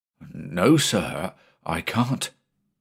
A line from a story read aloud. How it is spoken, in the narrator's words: the mate replied uneasily